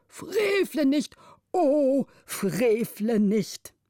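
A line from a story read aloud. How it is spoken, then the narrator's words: Tearful old man crying out. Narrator (German): der älteste Vormund mit Tränen auf den speckigen Wangen rief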